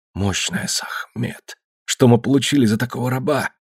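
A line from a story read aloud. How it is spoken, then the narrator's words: Whisper. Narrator (Russian): прошептал младший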